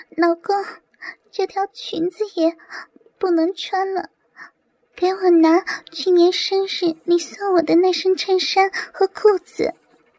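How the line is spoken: Shy, trembling voice. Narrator (Chinese): 白云 羞红着脸颤声道

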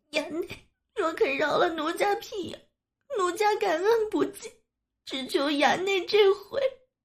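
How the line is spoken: Crying. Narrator (Chinese): 哭道

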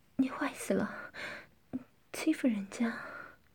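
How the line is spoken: Breathless. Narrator (Chinese): 夏丽金气喘吁吁地说道

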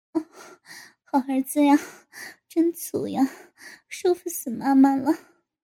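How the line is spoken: Sighing. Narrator (Chinese): 高志新哦了一声，跟着叹了口气道

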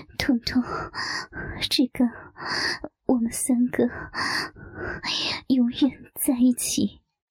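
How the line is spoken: Weak, breathless speech. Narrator (Chinese): 丽华无力地喘息地说道

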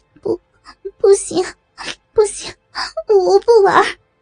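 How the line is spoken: Near tears. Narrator (Chinese): 可心快要哭出来了

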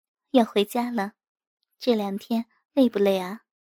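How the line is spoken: Gentle, emotional. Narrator (Chinese): 我有些激动，温柔地说

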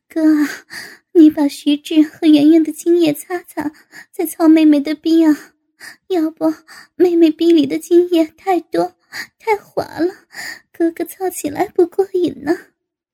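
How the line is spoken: Panting. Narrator (Chinese): 高志新一边喘息着一边道

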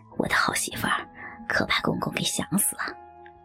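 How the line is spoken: Murmuring. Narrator (Chinese): 徐海口中喃喃说道

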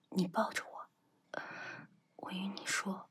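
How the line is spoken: Low voice. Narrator (Chinese): 徐斐低声道

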